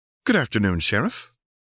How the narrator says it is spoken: Ryan Gleamspire said brightly

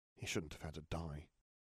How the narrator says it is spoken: Harry muttered

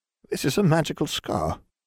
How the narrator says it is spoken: she murmured

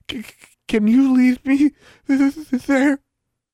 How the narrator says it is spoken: Charlie cooed at her

